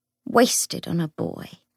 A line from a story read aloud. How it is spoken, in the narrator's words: Cecily said often, with a martyred sigh